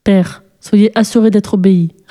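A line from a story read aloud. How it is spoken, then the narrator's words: Son's grave reply. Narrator (French): répondit le fils d'un ton grave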